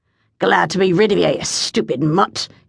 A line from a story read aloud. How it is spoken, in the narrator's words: he snarled